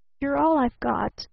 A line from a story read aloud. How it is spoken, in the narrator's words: faltered the man brokenly